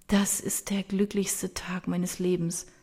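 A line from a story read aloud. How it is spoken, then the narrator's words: Softly spoken. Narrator (German): sagt sie leise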